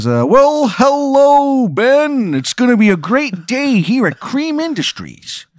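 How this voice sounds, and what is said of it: Imitates a weird Chicago accent. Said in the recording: “It sounds like a weird Chicago accent.”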